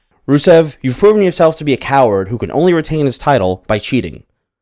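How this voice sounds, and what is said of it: Imitates another person's voice. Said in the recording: “my Austin Aries impression ... I'll see what I can do here”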